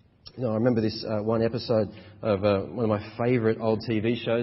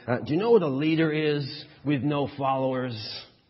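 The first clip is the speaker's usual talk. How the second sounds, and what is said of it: Put-on important American politician accent. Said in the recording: “in a kind of important American vice presidential accent ... That's my American vice president accent.”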